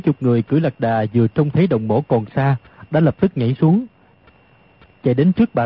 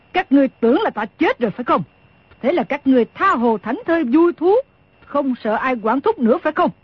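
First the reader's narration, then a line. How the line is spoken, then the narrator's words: Snorting, angry question. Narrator (Vietnamese): Đồng Mổ hừ một tiếng, rồi tức giận hỏi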